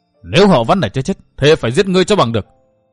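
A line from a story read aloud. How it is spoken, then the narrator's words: Furious frenzied roar. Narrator (Vietnamese): phùng mang trợn mắt, điên cuồng gầm rống lên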